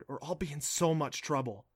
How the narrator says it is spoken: she whispered

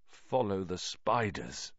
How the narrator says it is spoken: said Ron weakly

